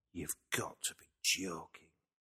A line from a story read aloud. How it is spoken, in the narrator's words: gasped